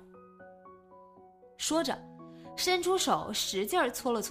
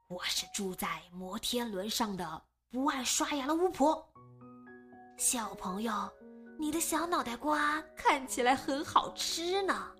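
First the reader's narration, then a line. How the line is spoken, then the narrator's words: Hoarse, growling voice. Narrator (Chinese): 像在模仿老虎扑食，嘶哑着嗓子说话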